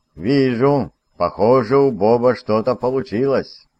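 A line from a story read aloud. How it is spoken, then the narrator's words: Joyful, impatient statement. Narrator (Russian): констатировал факт полковник, радостно приплясывая от нетерпения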